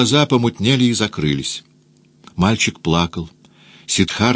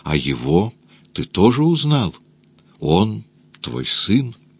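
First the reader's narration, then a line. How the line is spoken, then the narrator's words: Whispered. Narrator (Russian): прошептала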